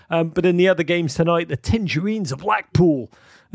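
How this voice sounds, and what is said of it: Put-on American accent. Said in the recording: “I don't know why I just said that in an American accent.”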